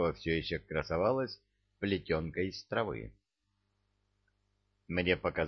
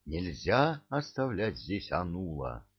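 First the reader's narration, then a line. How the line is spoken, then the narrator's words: Plain. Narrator (Russian): сказал я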